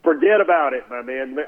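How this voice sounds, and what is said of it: Weak put-on Northeastern US accent. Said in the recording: “I wish I had a better Northeastern accent than that”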